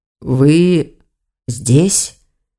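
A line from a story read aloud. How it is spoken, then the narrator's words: Hoarse voice. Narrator (Russian): охрипшим голосом проговорил он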